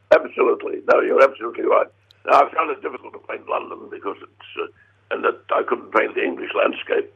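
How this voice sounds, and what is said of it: Cracked, strained voice. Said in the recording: “my voice sounds a bit cracked”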